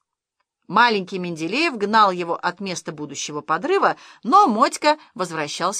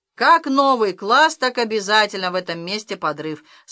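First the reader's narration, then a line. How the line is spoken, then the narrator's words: Calm. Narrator (Russian): спокойно сказал сторож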